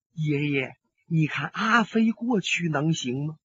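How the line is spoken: Whispered. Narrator (Chinese): 孙小姐悄声说

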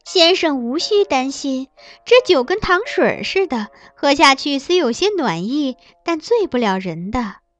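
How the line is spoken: Smiling. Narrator (Chinese): 玉清却又笑对我说

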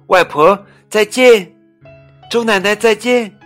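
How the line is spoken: Loud child. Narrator (Chinese): 小乐大声地说

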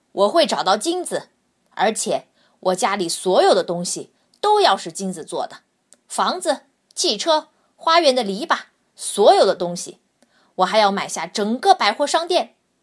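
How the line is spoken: Loud speech. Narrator (Chinese): 男子大声的对他的同事说

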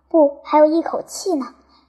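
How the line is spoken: Sighing. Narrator (Chinese): 军官叹息道

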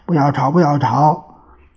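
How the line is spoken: Loud shouting. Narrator (Chinese): 代表又大声叫着

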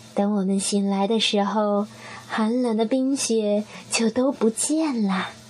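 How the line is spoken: Gentle motherly. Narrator (Chinese): 熊妈妈温柔地说

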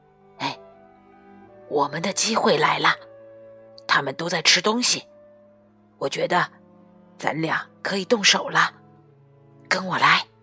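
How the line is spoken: Whisper. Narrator (Chinese): 强强悄声说

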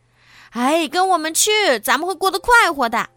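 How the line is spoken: Several voices calling. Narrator (Chinese): 车上又有四个人叫道

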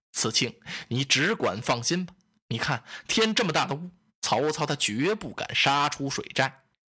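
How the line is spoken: Calm, smiling. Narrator (Chinese): 孔明先生坦然自若，冲着子敬一笑

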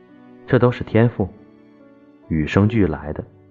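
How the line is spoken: Calm faint smile. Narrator (Chinese): 你淡淡一笑，说

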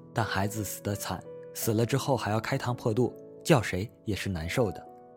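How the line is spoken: Low, hesitant. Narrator (Chinese): 他沉默了一阵，又低声说

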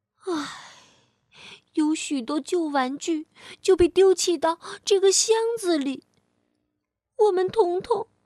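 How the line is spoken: Sighing. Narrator (Chinese): 威利叹口气说

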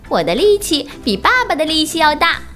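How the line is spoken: Happy shouting. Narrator (Chinese): 小熊高兴地喊着

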